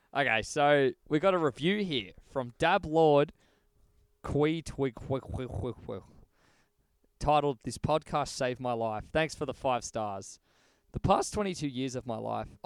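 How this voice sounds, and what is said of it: Reads in a put-on accent. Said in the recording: “I'm doing an accent, aren't I?”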